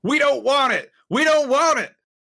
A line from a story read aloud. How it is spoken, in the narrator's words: shouting